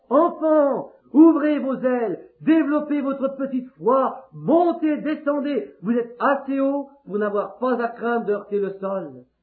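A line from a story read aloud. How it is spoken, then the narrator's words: Mother calling out. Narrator (French): Leur mère leur crie encore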